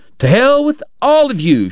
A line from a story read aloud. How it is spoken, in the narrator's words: she shouted